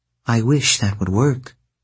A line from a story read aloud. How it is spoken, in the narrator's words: Aphrodite said